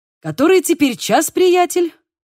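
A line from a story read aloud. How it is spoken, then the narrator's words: Forced cheerful voice. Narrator (Russian): Поинтересовался Диего, стараясь говорить бодрым голосом, который отнюдь не соответствовал его душевному настрою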